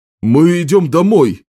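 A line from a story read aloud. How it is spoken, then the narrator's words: Enthusiastic shout, voice cracking. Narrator (Russian): закричал другой разведчик с таким энтузиазмом, что голос надломился, как у подростка в период полового созревания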